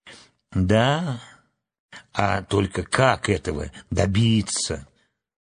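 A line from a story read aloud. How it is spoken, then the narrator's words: Sighing. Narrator (Russian): вздохнула Энни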